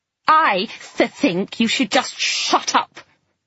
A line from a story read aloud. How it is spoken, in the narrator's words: Flo said furiously, imitating my stutter with an uncanny precision